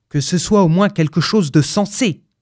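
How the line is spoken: Gruff voice. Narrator (French): fit-il d'une voix bourrue

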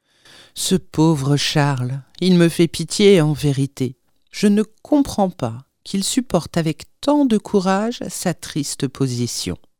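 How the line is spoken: Plain. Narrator (French): dit Marianne

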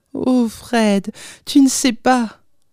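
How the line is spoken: Young woman exclaiming. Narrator (French): s'écria la jeune femme

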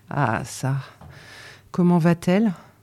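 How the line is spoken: Sighing, lowered voice. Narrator (French): ajouta le mari avec un soupir, en baissant la voix

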